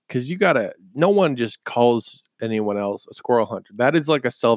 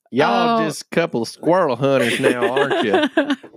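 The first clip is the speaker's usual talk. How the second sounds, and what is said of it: Country-accented imitation of another person. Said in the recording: “You sounded like Joe Exotic.”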